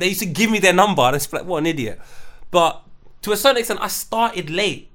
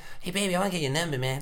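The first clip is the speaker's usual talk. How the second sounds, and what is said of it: Cartman cartoon character voice. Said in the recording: “we would chirps girls in a Cartman accent”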